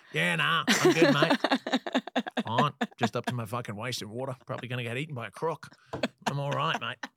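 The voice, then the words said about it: Put-on Australian accent. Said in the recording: “if they're going to do like an Aussie accent”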